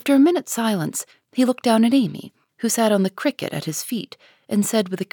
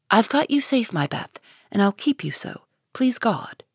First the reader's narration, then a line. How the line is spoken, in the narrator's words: saying tenderly, with her cheek against his own